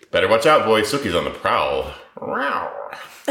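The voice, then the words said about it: Imitates a TV character's voice. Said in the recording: “It sounded like Jason Stackhouse for a second there. ... That was my impression of Jason Stackhouse.”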